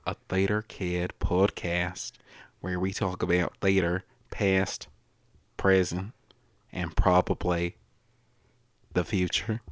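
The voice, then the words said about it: Strange put-on accent. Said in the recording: “what the hell that accent was”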